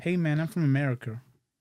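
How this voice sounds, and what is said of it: Put-on standard American accent. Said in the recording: “Can you at least do an American one, like a standard box standard American? ... That's not bad.”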